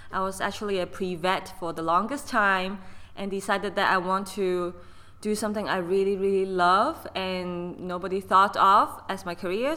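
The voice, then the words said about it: Noticeable non-native English accent. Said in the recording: “if you can notice my accent, I was actually born and raised in Hong Kong”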